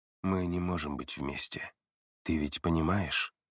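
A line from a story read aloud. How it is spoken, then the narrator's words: Quiet voice. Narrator (Russian): Его голос прозвучал тихо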